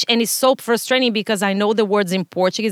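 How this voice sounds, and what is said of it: Brazilian Portuguese accent in English. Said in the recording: “you can pick up my accent ... the typical look of a gringo that we say in Brazil ... in Portuguese, I'm smart”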